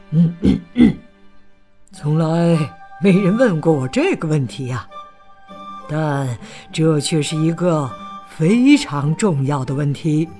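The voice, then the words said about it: Whispered old man's voice. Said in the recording (Chinese): “小声”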